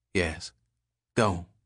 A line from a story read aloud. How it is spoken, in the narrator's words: Waddell said quietly